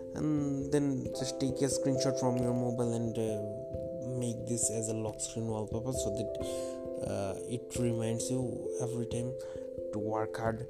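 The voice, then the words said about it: Non-native English accent. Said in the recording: “my English accent is not so good”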